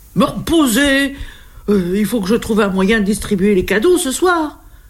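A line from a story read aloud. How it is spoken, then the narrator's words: Desperate cry. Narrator (French): s'écrie le Père Noël désespéré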